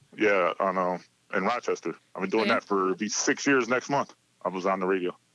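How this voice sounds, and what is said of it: Good radio voice. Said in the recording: “such a good radio voice”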